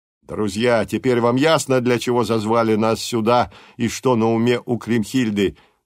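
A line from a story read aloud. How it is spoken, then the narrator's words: Booming shout. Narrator (Russian): громогласно крикнул Данквард землякам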